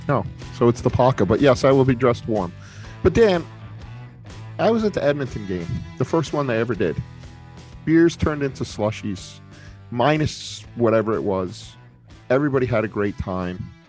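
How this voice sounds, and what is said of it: Rhode Island accent. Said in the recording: “my quaint Rhode Island accent”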